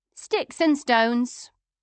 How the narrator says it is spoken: JJ said calmly

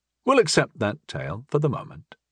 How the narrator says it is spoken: I said evenly

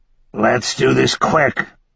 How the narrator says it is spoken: Eckersley said in a muffled voice

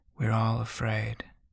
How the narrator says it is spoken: Ryder says soothingly

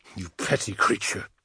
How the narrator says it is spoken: I spat at Daravec

